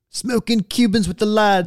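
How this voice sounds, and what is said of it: Poor put-on British accent. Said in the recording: “That's not even a good British accent. ... That's my street soccer British accent. ... That's not even good.”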